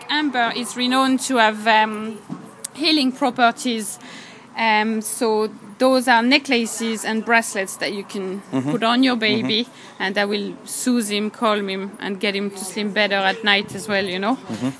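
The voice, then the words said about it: French accent, not Irish. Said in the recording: “that's not a Cork accent we hear there either, is it? ... I'm French myself, from Brittany.”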